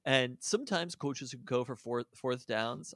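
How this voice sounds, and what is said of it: Put-on Canadian accent. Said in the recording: “I don't know why I said that with like a Canadian accent”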